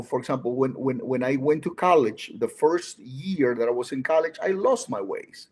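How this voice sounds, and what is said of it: Latino-accented English. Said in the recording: “a Latino speaking with an accent”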